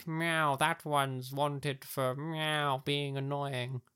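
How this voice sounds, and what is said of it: Cartoonish sheriff cat voice. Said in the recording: “That was my impression of a sheriff cat.”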